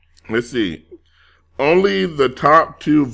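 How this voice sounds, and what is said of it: Usual voice. Nothing is said of it.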